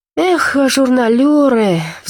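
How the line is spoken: Sighing. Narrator (Russian): вздохнул Полуянов по прочтении

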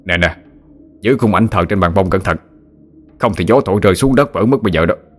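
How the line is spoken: Man's sharp shout. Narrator (Vietnamese): một ông lên tiếng quát

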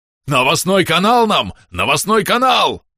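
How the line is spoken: Loud yelling. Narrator (Russian): завопил Бом

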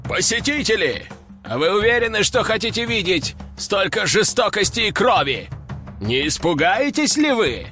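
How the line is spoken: Shouting arena attendant. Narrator (Russian): закричал на нас рогатый служащий бойцовской арены

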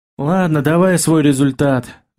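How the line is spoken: Sighing. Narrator (Russian): вздохнул я

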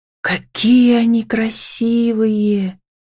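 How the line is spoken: Thoughtful drawl. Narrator (Russian): протянула задумчиво

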